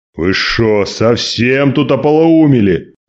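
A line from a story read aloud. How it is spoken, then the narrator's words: Angry growl. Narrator (Russian): зарычал на них Василий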